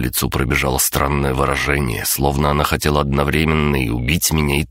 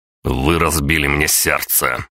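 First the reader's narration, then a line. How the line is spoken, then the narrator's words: Stern barking. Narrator (Russian): строго рявкнул я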